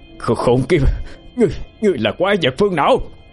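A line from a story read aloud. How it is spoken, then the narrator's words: Furious shouted command. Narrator (Vietnamese): Quá tức giận, Bạch Nhiên thét lớn ra lệnh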